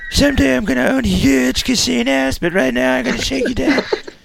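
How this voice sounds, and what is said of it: Teenage Donald Trump impression. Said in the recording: “I'm 14 years old, Donald Trump, and my voice is changing ... Teenage Trump”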